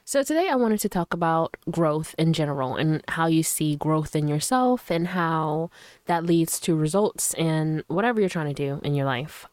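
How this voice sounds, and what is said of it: Slightly raspy, sick-sounding voice. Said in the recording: “I'm still kind of like a little sick ... my voice is uh, a little bit raspy”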